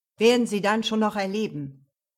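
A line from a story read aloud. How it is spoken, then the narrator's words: Thundering. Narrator (German): donnerte Jonas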